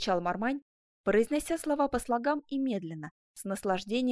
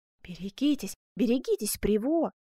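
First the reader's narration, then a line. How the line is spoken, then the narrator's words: Exclaimed. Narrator (Russian): воскликнул Викон де Мармань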